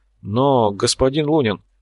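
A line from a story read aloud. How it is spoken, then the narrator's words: Confused. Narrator (Russian): растерянно произнес Корф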